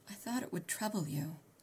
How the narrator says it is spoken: I whispered

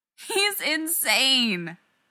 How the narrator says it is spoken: Rodney moaned

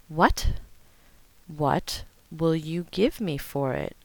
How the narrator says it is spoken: John repeated more slowly

